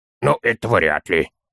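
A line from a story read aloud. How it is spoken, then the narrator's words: Child muttering. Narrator (Russian): пробормотал малыш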